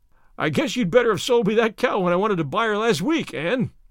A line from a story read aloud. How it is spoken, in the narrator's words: chuckled Mr